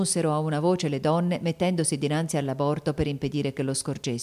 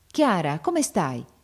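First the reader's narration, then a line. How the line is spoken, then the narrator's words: Man exclaiming, hurrying over. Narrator (Italian): esclamò il marchese accorrendo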